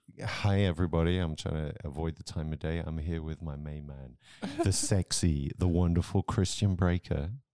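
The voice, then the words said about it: Put-on sultry, sexy voice. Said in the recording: “I'm going to try not to do a radio voice, but I'm now flipping into my sexy voice.”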